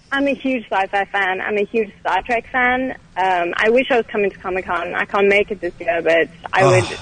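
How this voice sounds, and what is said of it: South African accent. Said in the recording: “She's got that British accent. ... listen to that British accent. ... I'm not British, though. I'm South African.”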